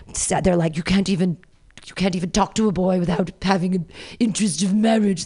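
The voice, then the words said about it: Imitates another person's voice. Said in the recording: “my Maggie Smith impression”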